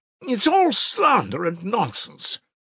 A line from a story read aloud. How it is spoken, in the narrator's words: cried Lebeziatnikov, who was always afraid of allusions to the subject